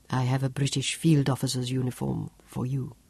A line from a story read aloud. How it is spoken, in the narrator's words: China said softly